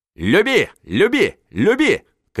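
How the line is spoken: Shouting. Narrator (Russian): кричал он

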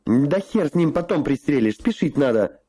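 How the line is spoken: Shouted. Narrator (Russian): крикнул Гоша

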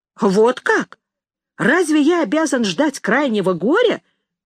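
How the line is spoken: Exclamation. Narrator (Russian): воскликнул брат указательный

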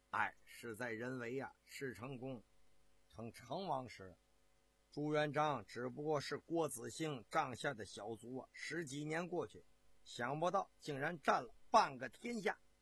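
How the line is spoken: Long sigh. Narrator (Chinese): 不由得发出了一声长叹

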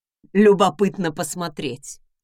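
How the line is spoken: Chuckling. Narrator (Russian): хохотнул Редвин

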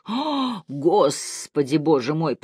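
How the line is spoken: Groaning. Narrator (Russian): простонал Миллер

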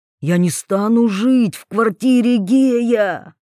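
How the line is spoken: Hiss in ear. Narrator (Russian): прошипел Вольных Ивете на ухо

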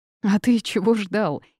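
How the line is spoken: Giggling. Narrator (Russian): хихикнула я

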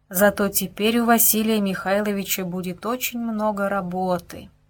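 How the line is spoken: Sighing to himself. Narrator (Russian): вздохнул про себя генерал-губернатор

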